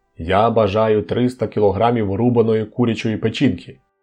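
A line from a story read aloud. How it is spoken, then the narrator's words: Loud. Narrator (Ukrainian): Він голосно вимовив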